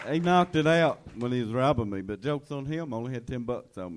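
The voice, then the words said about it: Hard-to-understand accent, gap-toothed speech. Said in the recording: “it's hard enough understanding the accent, but when you're missing a tooth, too, it makes it doubly as hard”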